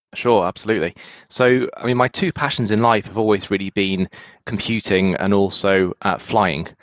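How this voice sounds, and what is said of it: British accent. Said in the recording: “can tell a little bit by your accent ... originally from the UK”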